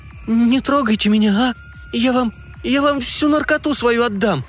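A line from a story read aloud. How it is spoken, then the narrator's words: Frightened squeak. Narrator (Russian): пропищала девица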